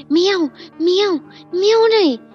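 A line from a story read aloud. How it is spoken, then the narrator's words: Roaring. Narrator (Vietnamese): giáo sư chuột cống tiếp tục dội xuống đầu nó một tràng tiếng gầm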